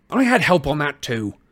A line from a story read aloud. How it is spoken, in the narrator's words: Harry snapped